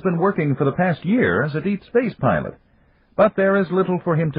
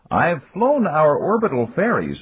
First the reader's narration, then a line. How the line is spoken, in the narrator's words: Nopo said